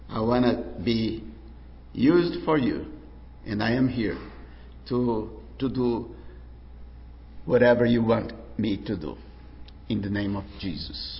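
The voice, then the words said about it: Speaks English with a foreign accent. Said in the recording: “correct my accent”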